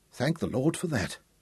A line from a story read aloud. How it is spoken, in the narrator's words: Reynolds whispered